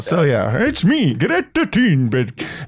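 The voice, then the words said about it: Put-on Scandinavian Swedish-chef accent. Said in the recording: “do a Scandinavian voice ... I'm doing this fucking Swedish chef”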